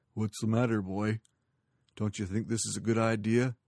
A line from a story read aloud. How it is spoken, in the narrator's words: Long John growled low in his throat